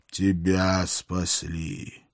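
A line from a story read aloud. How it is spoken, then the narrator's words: Snorting, serpent. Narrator (Russian): фыркнул змей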